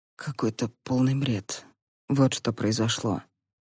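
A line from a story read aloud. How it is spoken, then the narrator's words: Quiet answer. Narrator (Russian): тихо ответил Малкольм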